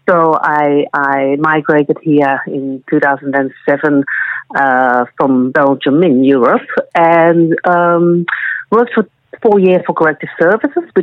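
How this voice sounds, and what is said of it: Non-Australian European accent. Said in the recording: “people will hear from my accent that I was not Australian born”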